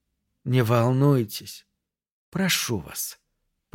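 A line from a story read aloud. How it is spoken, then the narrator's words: Almost tender. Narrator (Russian): почти ласково произнес голос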